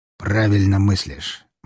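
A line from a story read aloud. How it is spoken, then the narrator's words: Gloomy, unsettling tone. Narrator (Russian): мрачно сказал князь, но мне его тон совсем не понравился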